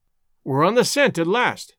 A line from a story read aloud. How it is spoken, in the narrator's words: I cried excitedly